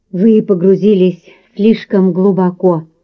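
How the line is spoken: Trembling voice. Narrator (Russian): дрожащим голосом произнес

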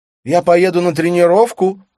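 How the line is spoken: Shouting. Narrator (Russian): прокричала она

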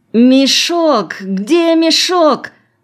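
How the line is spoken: Moaning. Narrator (Russian): застонал он

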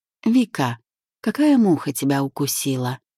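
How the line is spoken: Perfectly calm question. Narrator (Russian): абсолютно спокойно поинтересовался босс

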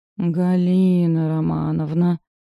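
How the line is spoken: Resigned drawl. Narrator (Russian): Обреченно протянула Машка

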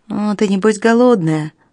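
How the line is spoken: Plain. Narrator (Russian): спросил Берт

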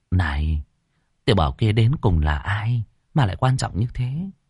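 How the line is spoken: Elder's quiet question. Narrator (Vietnamese): Trưởng lão nhỏ giọng hỏi Ngô Thắng

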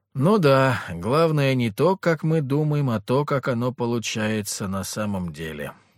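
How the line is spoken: Sighing. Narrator (Russian): вздохнул я

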